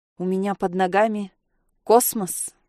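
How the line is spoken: Muttered. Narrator (Russian): пробормотала

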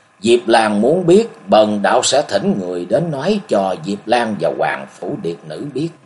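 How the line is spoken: Sighing. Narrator (Vietnamese): Buông tiếng thở dài, Vô Thượng đạo trưởng nói

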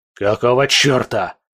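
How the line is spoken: Barking prince. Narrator (Russian): рявкнул князь вслух

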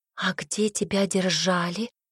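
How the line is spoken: Near-whisper question. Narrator (Russian): почти шепотом спросила

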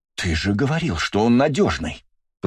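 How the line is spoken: Hiss. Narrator (Russian): прошипела Марина

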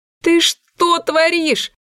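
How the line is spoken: Panicked scream. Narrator (Russian): В панике закричала я

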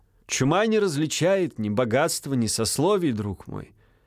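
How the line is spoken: Plain. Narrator (Russian): сказал Винтерков гвардейцу

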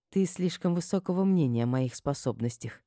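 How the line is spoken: Quiet. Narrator (Russian): тихо проговорила я

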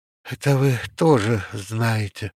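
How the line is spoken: Sighing. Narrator (Russian): вздохнула Валя

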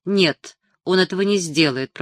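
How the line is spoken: Grumbled. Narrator (Russian): проворчал Милош

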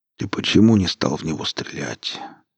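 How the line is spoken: Quiet, tired, resigned question. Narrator (Russian): спросил тихим, усталым голосом, словно это уже не имело значения

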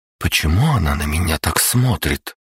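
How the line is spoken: Whisper. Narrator (Russian): прошептала Настя

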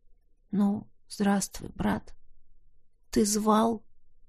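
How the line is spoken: Huge beast's soft rumble. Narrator (Russian): Тихонько проурчал громадный зверь

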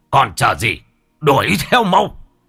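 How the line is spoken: Shouting. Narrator (Vietnamese): Ông Bá Hùm quát lên

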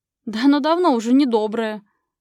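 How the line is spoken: Laughing. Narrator (Russian): рассмеялась мама

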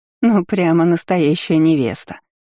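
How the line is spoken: Chuckled. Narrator (Russian): Хохотнула она

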